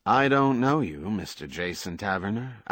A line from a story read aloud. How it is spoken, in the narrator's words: Al Bliss said, again in his most neutral, uninvolved voice